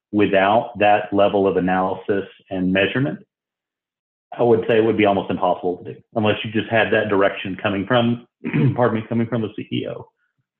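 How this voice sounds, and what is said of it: Hoarse, strained voice. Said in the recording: “losing my voice a little bit”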